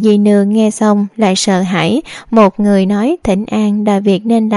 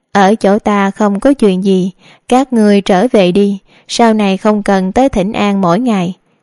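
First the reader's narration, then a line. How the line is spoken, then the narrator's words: Smiling. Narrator (Vietnamese): Đường Thư Nghi mỉm cười nói tiếp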